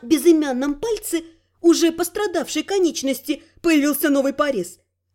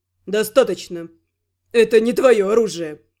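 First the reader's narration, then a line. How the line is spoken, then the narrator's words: Scoffing snort. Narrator (Russian): Хмыкнул Гал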